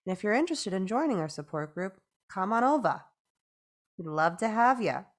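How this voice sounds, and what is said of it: Put-on New York accent. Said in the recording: “I just started a New York accent there”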